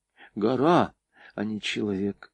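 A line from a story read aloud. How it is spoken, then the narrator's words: Whisper. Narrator (Russian): шепнула она Лёле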